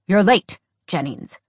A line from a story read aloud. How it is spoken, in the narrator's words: Carter grunted